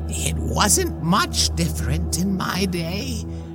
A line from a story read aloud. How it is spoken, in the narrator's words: she croaked as she smiled a toothy grin